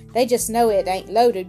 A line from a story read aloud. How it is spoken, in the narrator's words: grumbled Obadiah